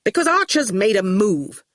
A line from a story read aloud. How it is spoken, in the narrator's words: Torquil said irritably